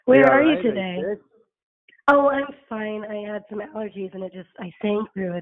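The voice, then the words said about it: Hoarse, strained voice. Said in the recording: “My voice is a little hoarse. ... my voice got lost last night”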